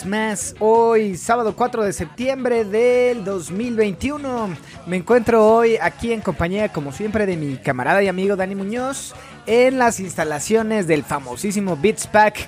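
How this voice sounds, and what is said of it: Sports announcer voice. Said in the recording (Spanish): “tu voz de locutor de partido de fútbol soccer de la selección mexicana”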